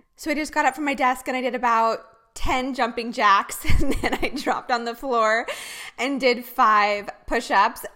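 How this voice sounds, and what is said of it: Slightly out of breath. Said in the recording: “a little out of breath”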